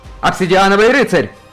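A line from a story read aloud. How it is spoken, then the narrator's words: Shouted. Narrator (Russian): крикнул Феликс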